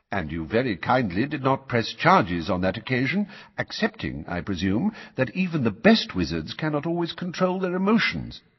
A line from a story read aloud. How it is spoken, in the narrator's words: said Dumbledore calmly